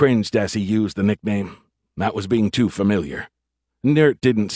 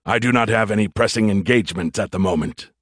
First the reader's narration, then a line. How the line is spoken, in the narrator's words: the Verd grunted